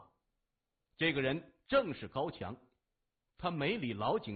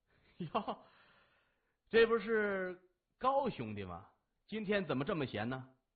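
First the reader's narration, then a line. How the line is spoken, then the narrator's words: Warm smiling greeting. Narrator (Chinese): 他笑容满面的迎上前说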